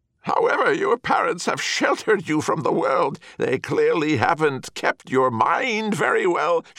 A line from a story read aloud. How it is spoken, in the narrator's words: she exclaimed